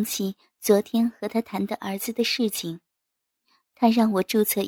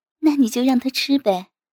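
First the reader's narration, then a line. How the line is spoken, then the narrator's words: Laughing. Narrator (Chinese): 我笑着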